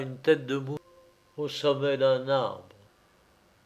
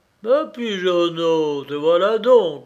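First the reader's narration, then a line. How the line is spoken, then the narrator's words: Bear grumbling. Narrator (French): grommela un ours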